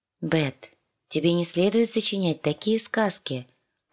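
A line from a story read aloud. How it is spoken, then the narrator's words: Correcting. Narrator (Russian): поправила Санса-младшую, ласково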